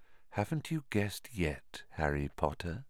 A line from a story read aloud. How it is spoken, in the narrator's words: said Riddle softly